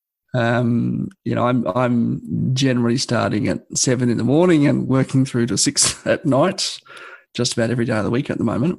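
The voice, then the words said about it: Croaky, slightly hoarse voice. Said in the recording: “you can probably tell from my voice right now, it's a little bit croaky”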